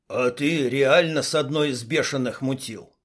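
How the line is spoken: Smirking grunt. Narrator (Russian): Дима хмыкнул

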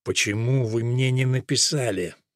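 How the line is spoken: Increasingly hoarse voice. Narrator (Russian): Голос его становился все более хриплым

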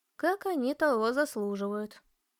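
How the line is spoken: Calm. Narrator (Russian): спокойно ответила мама

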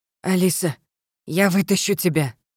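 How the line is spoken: Hoarse. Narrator (Russian): прохрипел он

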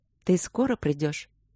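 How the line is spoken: Timid question. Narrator (Russian): робко спросила она его

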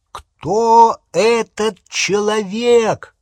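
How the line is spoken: Loud repetition. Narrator (Russian): громко повторил он

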